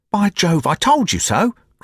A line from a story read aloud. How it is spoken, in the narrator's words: cried the clerk